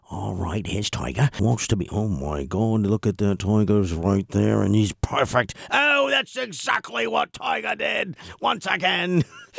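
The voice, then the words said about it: Hushed whispering sports announcer voice. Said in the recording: “Why are the announcers whispering? ... shh”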